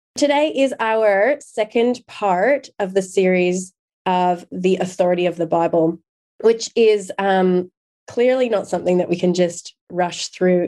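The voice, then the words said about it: Hoarse voice. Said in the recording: “I myself am recovering from some laryngitis.”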